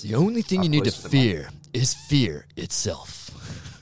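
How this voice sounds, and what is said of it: Really deep voice. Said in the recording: “in a really deep voice”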